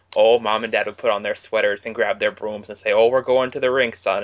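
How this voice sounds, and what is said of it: Put-on North Dakota, Fargo-style accent. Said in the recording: “You sound like you're from North Dakota. ... You sound like an extra from Fargo.”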